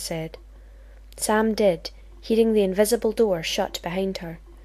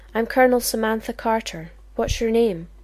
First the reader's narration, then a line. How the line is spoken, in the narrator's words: she asked